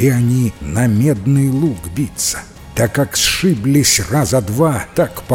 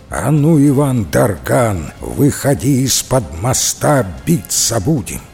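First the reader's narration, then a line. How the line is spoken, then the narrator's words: Menacing voice. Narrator (Russian): младший сын Кощея и говорит грозным голосом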